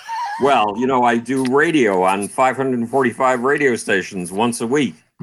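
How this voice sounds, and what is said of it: Sexy radio voice. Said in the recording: “You have such a sexy voice. ... your voice at night in bed in the dark would be really incredible. ... That's why you have that voice.”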